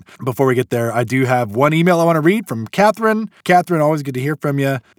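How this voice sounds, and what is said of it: Scratchy, rough voice. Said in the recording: “if my voice sounds weird. I've had a cough for the last week or so ... my voice, at least to me, sounds really scratchy ... my voice be a little bit rougher”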